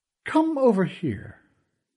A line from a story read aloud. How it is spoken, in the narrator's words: he said in that dripping voice of his